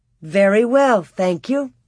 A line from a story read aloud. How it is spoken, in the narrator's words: Laura replied